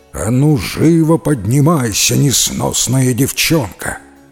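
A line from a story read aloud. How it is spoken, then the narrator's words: Menacing giant's growl. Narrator (Russian): Великан грозно зарычал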